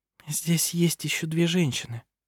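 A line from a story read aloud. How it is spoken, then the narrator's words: Quiet. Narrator (Russian): тихо сказала она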